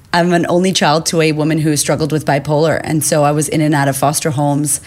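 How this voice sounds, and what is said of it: American accent. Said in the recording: “I grew up in America, as you can hear the accent”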